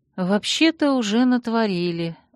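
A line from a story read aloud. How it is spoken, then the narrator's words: Sighing. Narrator (Russian): вздохнув, проговорила я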